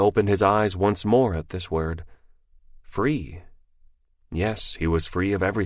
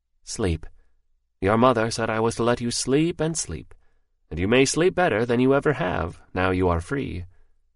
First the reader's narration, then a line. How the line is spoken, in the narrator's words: he said very kindly